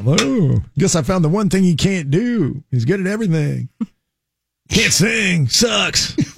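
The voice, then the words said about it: Imitates another person's voice. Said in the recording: “my ... impression, by the way, which felt pretty good. It doesn't seem anything like him, but it felt good.”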